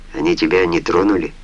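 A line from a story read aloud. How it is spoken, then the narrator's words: Quiet question. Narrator (Russian): тихо спросил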